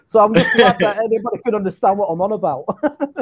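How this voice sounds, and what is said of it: Yorkshire northern English accent. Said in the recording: “We are renowned for our accent, the Yorkshire people. ... I'm digging the accent, man. ... Because of the accent”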